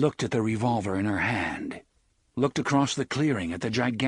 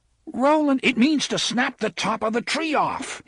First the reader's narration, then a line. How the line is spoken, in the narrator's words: he roared at her